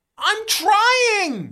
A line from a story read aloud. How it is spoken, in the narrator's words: You shout